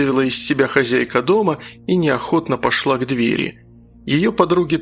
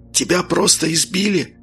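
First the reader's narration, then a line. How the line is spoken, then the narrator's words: Whispered reply. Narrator (Russian): также шепотом ответил он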